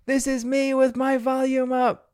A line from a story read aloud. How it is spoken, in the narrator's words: She starts to yell and scream